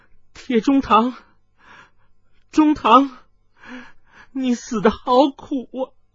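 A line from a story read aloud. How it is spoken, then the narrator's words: Wailing in grief. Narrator (Chinese): 水灵光痛哭道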